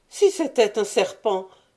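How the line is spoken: Exclaimed. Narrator (French): s'écria Séraphine

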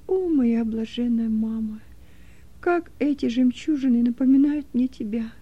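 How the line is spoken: Sad voice. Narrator (Russian): Роза … она произнесла печальным голосом

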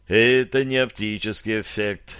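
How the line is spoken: Sighing. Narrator (Russian): вздохнул Питер

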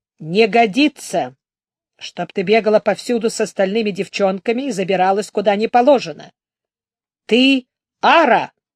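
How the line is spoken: Stern. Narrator (Russian): строго сказала ей Тхар

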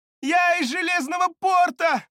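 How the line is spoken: Shouted. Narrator (Russian): выкрикнула она

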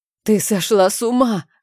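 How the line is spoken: Hoarse rasp. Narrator (Russian): хрипела я ей в лицо

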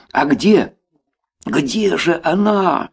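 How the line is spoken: Shouted even louder. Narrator (Russian): Еще громче выкрикнул Толя в надежде заглушить этот насмешливый шепот космоса

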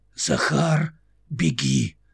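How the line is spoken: Distant, hoarse, weak. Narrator (Russian): далекий ее, хриплый и слабый голос

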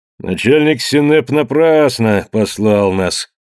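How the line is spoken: Lazy older man. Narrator (Russian): лениво проговорил один из них постарше

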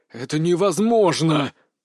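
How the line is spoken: Through gritted teeth. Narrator (Russian): процедил Вяземский

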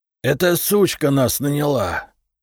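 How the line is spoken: Hoarse. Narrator (Russian): прохрипел Швыдько

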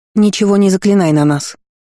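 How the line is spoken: Sharp cutting interruption. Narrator (Russian): резко оборвала его объяснение Астра

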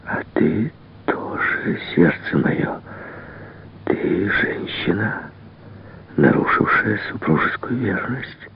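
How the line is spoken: Whisper. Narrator (Russian): прошептал

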